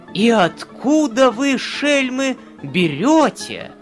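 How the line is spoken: Surprised cry. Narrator (Russian): казначей от удивления вскрикнул

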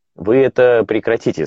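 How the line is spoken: Plain. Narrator (Russian): сказал я

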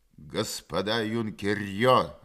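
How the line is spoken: Growl through megaphone. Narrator (Russian): рычало из раструба мегафона

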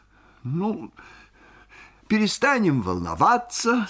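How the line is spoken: Sugary, smiling. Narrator (Russian): сказал сладким голосом Мамиков, ее домашний доктор, улыбаясь так же сладко

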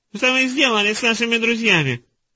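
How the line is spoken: Squeaky voice. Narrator (Russian): пропищал завуч Нира

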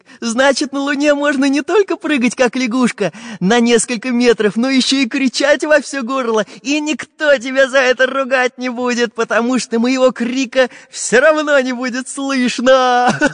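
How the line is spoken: Cheerful boy laughing. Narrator (Russian): Весело засмеялся мальчик

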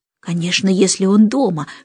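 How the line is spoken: Whisper. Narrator (Russian): шепнула Джейн Майклу

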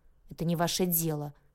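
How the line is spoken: Muttered. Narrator (Russian): буркнула я

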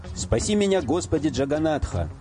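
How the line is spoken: Shouted. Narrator (Russian): закричал

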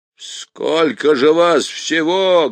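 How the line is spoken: Barked shout. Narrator (Russian): гаркнул он

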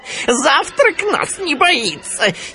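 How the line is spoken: Hyenas giggling. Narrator (Russian): хихикали гиены

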